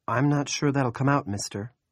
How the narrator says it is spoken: Claire sighed

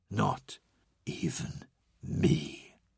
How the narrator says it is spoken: Horus whispered

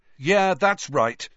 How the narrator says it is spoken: Harry found himself shouting, having had just about enough

